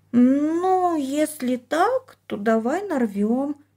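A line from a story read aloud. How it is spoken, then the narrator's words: Hesitant drawl. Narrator (Russian): неуверенно протянула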